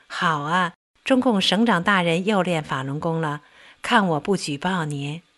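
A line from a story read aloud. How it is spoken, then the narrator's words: Joking. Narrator (Chinese): 我跟他开玩笑说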